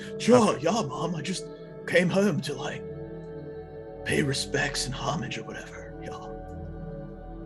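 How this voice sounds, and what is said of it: Character voice, through laughter. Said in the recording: “Shazi or Shazo voice? ... I can't do the voice without laughing”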